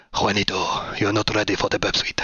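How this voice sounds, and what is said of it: Exaggerated put-on Spanish accent. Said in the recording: “I'm going to do a massively over Spanish accent now.”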